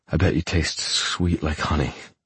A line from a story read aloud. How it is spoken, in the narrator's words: I murmur